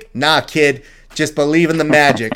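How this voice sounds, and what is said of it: Put-on gruff old-timer character accent. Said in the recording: “Is that accent fake?”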